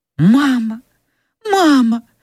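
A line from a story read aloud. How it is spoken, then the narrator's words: Child exclaiming. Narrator (Russian): воскликнул маленький Уэйд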